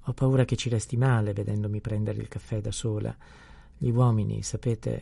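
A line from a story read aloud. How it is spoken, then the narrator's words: Nurse speaking with heavy sighs. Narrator (Italian): riprese la balia, facendo grandi sospiri fra una parola e l'altra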